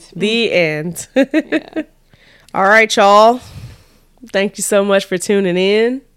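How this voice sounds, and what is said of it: Southern American accent. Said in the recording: “I feel like I have a nice southern accent right now. ... Sounding real good. Like I'm from Tennessee or Texas.”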